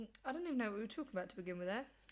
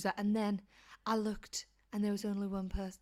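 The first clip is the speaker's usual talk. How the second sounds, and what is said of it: Poor put-on accent. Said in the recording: “That's not a very good accent,”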